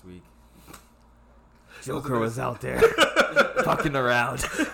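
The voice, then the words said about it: Weak Batman voice, sounds congested. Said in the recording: “I really can't even do the Batman voice. That's what's so bad. I sound like I got a cold”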